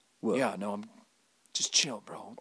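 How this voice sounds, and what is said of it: Hard whispery growling voice. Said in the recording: “Keanu's got the hard whisper... He's never speaking out loud... He's always like, hey. Like a growl.”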